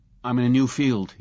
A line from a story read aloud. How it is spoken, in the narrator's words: he said curtly